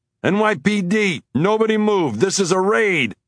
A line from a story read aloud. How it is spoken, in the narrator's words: he yelled as he rushed in